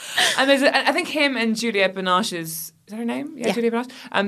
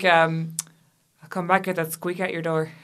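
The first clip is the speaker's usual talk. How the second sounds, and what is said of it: Bad Irish accent, imitating Johnny Depp. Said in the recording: “he has a weirdly bad Irish accent”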